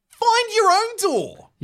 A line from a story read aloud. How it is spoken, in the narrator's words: He yells